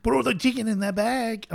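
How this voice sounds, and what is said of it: Put-on Goodfellas gangster accent. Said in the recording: “going with a Goodfellas accent instead of like a really horrendous Cheech and Chong.”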